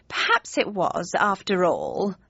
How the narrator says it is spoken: sighed my mother

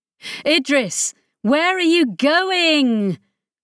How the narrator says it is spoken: Chris shouted

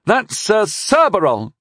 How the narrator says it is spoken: shouted the boy angrily

